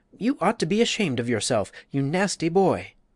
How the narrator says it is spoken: her companion, more brave and sturdy, cried out

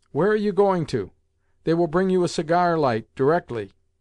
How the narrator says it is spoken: Someone called out to me

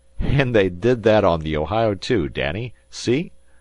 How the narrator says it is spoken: said Tom Platt, laughing

